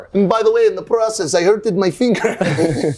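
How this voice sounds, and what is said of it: Put-on Swedish accent. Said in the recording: “the best Swedish accent I got. I'm working on it.”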